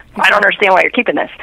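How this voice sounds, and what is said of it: Frustrated, exasperated tone. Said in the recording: “it's frustrating ... as you can hear it in my voice, I still have some of that”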